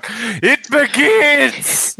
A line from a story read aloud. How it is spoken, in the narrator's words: I just sort of shout